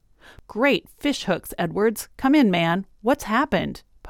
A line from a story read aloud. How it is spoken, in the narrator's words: Pa exclaimed